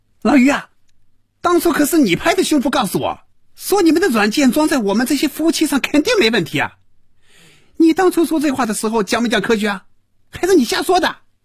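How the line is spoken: Loud furious shouting. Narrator (Chinese): 赵平凡被余威彻底激怒了，真要骂人了，大声嚷着

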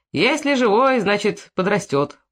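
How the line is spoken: Cheerful priest. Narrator (Russian): бодро сказал поп

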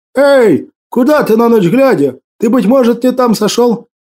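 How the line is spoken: Driver shouting. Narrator (Russian): Водитель ... крикнул

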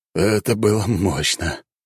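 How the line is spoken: Breathless exhale. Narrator (Russian): выдохнул брат

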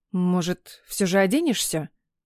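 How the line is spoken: Strained, turned away. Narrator (Russian): отвернувшись, выдавила

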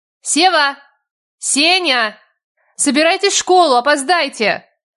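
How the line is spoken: Shout. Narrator (Russian): Крикнула я

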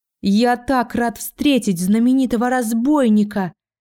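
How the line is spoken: Crazy yelling. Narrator (Russian): заорал этот ненормальный

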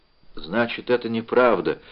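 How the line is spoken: Quiet. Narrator (Russian): тихо сказала

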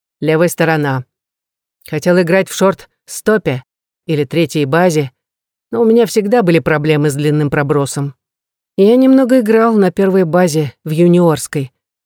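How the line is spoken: Funereal, sad tone. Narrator (Russian): похоронным тоном сообщил Эрик с нотками печали

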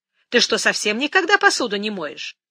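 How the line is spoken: Unrepentant snort. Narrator (Russian): Джастина фыркнула, не проявляя ни малейшего раскаяния

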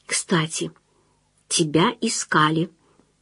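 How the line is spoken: Mysterious whisper. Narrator (Russian): загадочным шепотом сообщила Ирина

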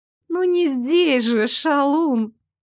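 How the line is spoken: Languid drawl. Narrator (Russian): томно протянула она

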